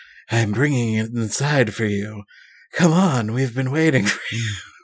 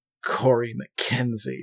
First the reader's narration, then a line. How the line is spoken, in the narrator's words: she sneers